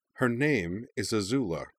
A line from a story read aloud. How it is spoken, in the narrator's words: she said in a ringingly imperious voice